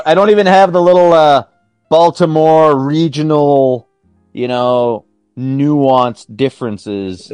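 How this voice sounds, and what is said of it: General North American accent. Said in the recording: “I just got this crappy American type accent ... crappy American Canadian accent”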